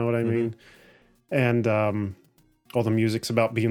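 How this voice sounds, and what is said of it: Usual voice. Nothing is said of it.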